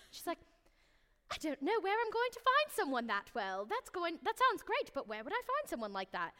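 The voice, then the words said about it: Poorly imitated British accent. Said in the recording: “her little British accent, which I'm gonna butcher horribly”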